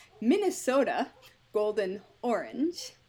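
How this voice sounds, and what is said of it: Noticeable regional accent. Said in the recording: “I'm going to try to say this without an accent, and it's not going to work ... Nope, that still had the accent.”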